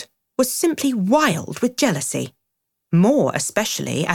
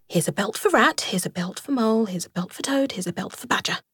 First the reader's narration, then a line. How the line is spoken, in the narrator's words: The anxious and laborious rat … muttering